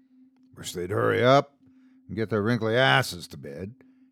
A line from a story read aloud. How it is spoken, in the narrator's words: he muttered under his breath